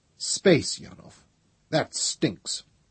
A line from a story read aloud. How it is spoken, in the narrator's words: Trevise said irritably